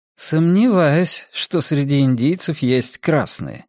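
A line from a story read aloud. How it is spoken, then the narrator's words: Grim chuckle. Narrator (Russian): мрачно усмехнулся он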